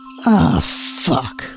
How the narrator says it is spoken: muttered

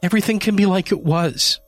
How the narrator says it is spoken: she pleaded

